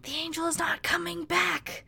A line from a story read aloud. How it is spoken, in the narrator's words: An overexcited global populace began to whisper in even louder voices